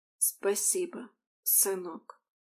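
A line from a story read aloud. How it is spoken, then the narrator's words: Quiet mother. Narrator (Russian): негромко произнесла мать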